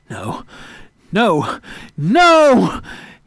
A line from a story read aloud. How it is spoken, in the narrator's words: he screamed